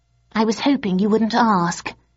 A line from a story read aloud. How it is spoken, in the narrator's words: he sighed